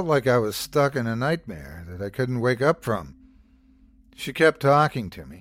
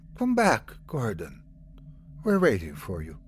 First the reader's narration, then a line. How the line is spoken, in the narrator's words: She continued to whisper